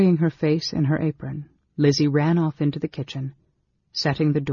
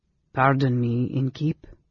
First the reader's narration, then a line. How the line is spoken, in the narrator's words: the stranger said in a cultivated voice with an unusual accent